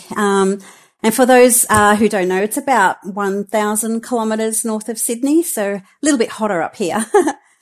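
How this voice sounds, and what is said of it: Australian accent. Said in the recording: “I'm based in Brisbane, in Australia, hence the accent.”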